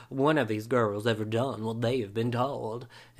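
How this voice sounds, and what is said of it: Put-on deep Southern accent. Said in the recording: “my best impression of the narrator... it's very serious, like, deep South accent that the narrator does. And that's what he sounded like”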